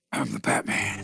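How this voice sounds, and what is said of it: Deep gravelly Batman voice. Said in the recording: “do a Batman voice ... answer with the Batman voice”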